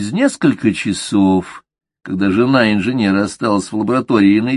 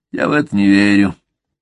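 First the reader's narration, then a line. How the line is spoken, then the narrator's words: Grumbling mutter. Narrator (Russian): пробурчал фармацевт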